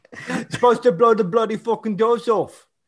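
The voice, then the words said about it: Put-on Cockney accent. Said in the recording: “It's the Cockney accent... And now I'm turning him into Michael Caine.”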